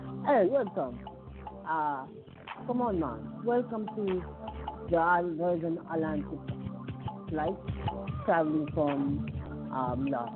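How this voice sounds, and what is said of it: Put-on accent, flight announcement voice. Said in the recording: “that is the wrong accent”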